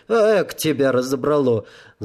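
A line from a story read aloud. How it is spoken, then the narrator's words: Laughing, old man. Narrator (Russian): засмеялся старик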